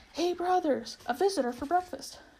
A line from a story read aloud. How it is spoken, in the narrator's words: Duffel called out